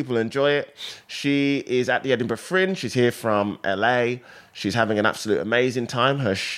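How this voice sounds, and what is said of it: Usual voice. Nothing is said of it.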